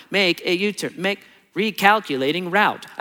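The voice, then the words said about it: Robotic GPS navigation voice. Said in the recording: “robot voice in my car”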